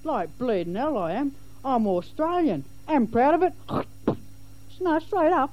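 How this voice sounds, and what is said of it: English accent. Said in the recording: “how come you got a pommy accent?”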